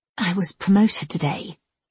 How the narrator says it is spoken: she murmured

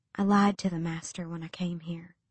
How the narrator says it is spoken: she whispered, as if afraid someone else would hear them in the emptiness of the desert

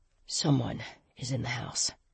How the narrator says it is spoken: he breathed

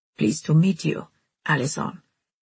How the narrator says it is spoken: Dita Race said in a smoky, caressing voice

